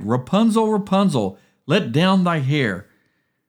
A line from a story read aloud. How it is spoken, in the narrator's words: the king's son came and cried